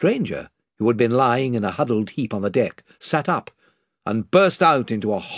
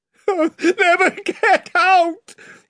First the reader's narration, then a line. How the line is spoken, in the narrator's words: he yelled